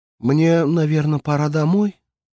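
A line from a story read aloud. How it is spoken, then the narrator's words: Timid girl asking. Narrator (Russian): как-то робко спросила девушка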